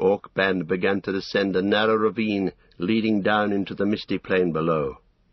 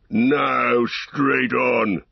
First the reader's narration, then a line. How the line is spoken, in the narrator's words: shouted Ugluk